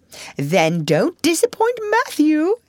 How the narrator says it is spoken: said the pink lady, laughing

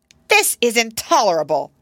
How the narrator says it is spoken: cried the young lady nurse

